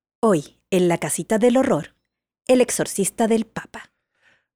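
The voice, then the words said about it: Dramatic announcer voice. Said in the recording (Spanish): “Lo voy a hacer con voz de locutor.”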